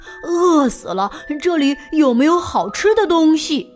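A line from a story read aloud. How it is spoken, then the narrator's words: Panting, out of breath. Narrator (Chinese): 猪来了，头大汗，喘着气说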